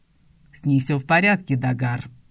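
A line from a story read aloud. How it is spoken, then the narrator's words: Growling voice. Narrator (Russian): рычащий голос Грегора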